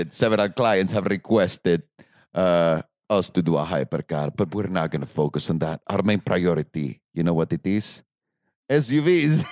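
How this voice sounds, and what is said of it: Put-on accent. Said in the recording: “I don't know why I'm going to do this accent”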